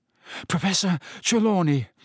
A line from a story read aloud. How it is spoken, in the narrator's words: Harry panted